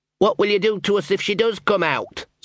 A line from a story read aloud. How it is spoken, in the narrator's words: said Sean